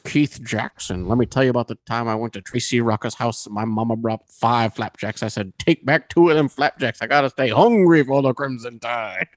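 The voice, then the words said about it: Impression of commentator Keith Jackson. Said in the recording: “So he did an impression of Keith Jackson. ... Brett Favre would do an impression of Keith Jackson, the commentator.”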